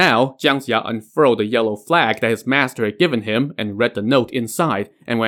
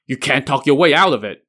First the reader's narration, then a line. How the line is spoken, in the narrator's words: the creature snarled